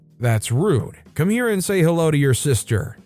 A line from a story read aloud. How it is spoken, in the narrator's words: my dad called out to him